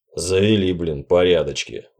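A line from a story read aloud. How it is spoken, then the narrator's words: Sighing. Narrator (Russian): вздохнул Янгер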